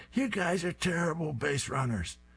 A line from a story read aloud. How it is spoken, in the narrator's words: Fang is screaming